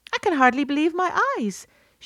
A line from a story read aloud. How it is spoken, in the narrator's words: she cried